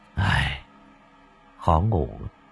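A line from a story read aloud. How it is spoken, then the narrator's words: Soft hesitant. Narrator (Vietnamese): Cậu khẽ dỗ dành rồi tần ngần nói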